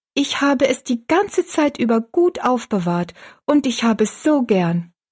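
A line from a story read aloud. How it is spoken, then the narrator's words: Calling out. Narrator (German): rief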